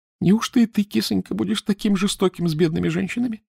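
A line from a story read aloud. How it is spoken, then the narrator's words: Sobbing. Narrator (Russian): всхлипывала графиня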